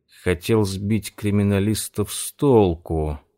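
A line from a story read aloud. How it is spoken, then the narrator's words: Drawled. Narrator (Russian): протянул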